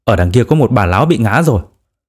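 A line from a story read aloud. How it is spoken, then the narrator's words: Sudden exclamation. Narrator (Vietnamese): cậu tiến sĩ chợt kêu lên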